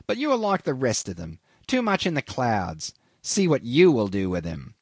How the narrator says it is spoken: he sneered

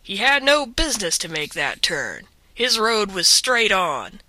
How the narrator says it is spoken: said the man roughly

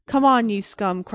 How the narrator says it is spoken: cried he merrily

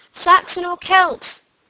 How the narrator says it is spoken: she continued, laughing in the darkness

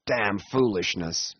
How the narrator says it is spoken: muttered the Yankee, vexedly

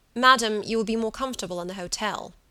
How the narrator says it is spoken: he said sharply

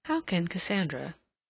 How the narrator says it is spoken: she murmured

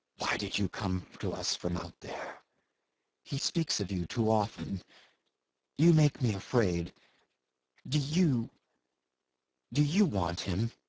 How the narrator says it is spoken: A sort of stealthy fierceness had crept into our hurried murmurs

